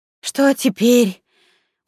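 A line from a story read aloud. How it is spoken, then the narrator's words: Weary question. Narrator (Russian): поинтересовалась Светка у эльфийки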